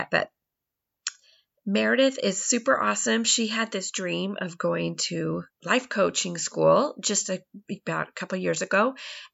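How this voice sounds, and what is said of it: Strained, not fully recovered voice. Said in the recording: “excuse my voice. ... I just don't quite have my voice back yet”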